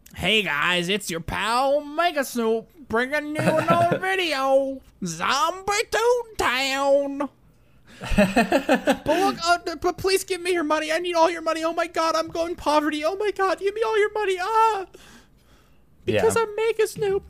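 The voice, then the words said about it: Imitates another person's voice. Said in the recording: “that was the impression I did”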